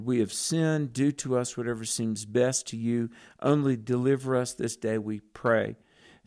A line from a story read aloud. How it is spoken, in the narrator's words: The children of Israel cried out and they said to the Lord